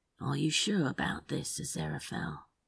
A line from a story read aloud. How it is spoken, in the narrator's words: Crowley asked softly